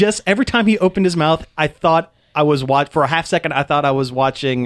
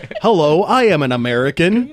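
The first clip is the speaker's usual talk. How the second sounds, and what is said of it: Mock American accent. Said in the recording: “American accent”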